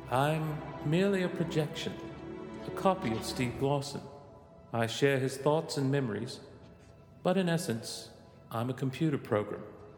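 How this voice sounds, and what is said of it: Imperfect put-on British accent, Southern traces. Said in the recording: “why do you have a British accent? ... this isn't the best British accent anyway. There's still some Georgia in there.”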